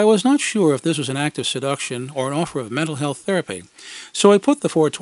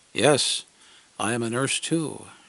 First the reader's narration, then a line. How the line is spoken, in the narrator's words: purred